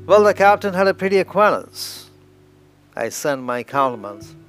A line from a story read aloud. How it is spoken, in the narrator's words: said in a severe tone